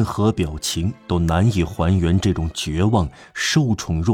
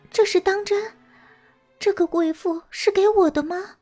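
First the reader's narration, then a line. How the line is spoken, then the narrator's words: Emotional, near tears. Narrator (Chinese): 陌生人好像眼里满含泪水，他看来非常激动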